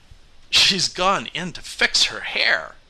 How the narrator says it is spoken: he announced wildly

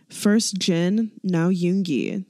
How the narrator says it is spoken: he says

